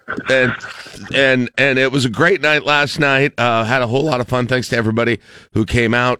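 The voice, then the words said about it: Strained, worn-out voice. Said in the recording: “My voice is recovering from the Break the Curse party last night ... if it cost me my voice”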